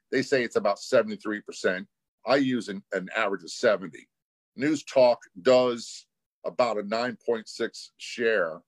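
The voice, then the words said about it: Smooth radio announcer voice. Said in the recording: “you definitely really have that radio voice down”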